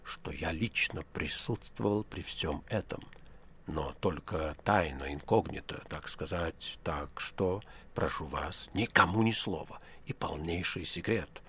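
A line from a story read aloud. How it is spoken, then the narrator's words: Fearful whisper. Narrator (Russian): профессор пугливо оглянулся и заговорил шепотом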